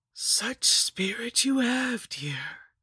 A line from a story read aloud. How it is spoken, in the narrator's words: she rasped